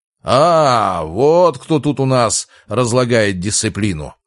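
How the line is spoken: Growled. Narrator (Russian): прорычал декан

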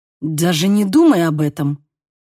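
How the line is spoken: Growled. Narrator (Russian): прорычал

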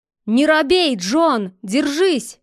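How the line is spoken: Shout. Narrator (Russian): крикнул Мук

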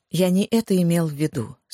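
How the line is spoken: Calm, patient man. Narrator (Russian): спокойно произнес мужчина, не выказывая ни малейших признаков нетерпения

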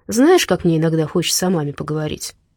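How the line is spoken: Sad sigh. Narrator (Russian): Она грустно вздохнула и добавила

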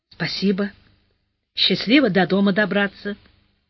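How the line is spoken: Young man, quiet. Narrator (Russian): Парень тихо сказал

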